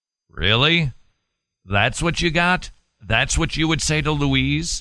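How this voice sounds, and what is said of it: Usual voice. Nothing is said of it.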